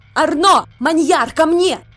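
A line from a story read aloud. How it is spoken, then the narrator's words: Shout. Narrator (Russian): выкрикнула Изабо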